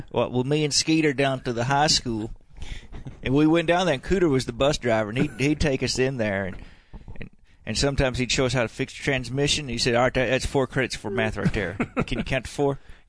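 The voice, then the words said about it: Exaggerated rural redneck character voice. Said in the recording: “talk in your real voice ... the voice that you did on the last pod, which was really funny ... All those redneck”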